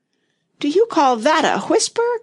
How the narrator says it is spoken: cried the poor king

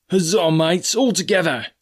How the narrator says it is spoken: shouted Mary

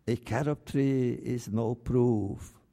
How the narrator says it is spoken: they said

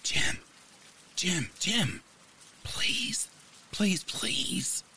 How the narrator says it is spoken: I hissed

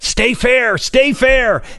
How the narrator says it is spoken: My dad yelled

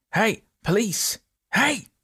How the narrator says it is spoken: men shouted

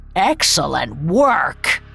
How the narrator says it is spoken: he hissed

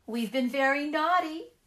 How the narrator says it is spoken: they cried

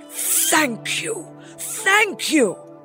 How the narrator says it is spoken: cried the emperor

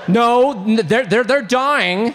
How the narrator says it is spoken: said the young man nervously

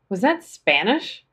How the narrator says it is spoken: I giggled

